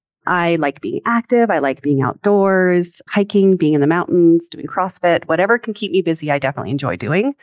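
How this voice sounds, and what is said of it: Mild Canadian accent. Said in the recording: “I was born and raised in Canada. And so you will hear my sorry and other portions of that accent come through. I kind of call myself a Camerican”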